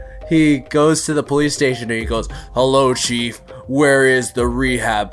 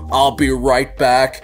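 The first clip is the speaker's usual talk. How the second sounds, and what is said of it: RoboCop character voice impression. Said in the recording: “my best RoboCop impression”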